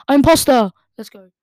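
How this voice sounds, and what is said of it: Shouting excitedly. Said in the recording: “Sorry for shouting”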